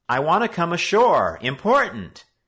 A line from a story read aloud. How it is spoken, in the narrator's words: Joe shouted out to him